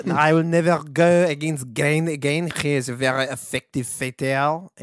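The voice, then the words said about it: Put-on French accent. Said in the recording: “That would be my French accent ... you sound like remember the Merovingian? ... from the Matrix. ... That's literally where I pull that accent from.”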